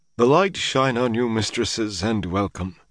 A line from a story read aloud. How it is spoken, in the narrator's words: he sighed